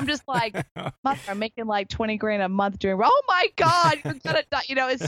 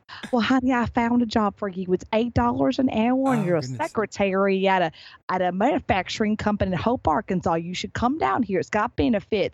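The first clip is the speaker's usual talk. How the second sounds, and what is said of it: Put-on Southern US accent. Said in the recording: “my mother's very Southern. She's a very Southern woman and from Arkansas, Hot Springs. So she's got the Southern accent”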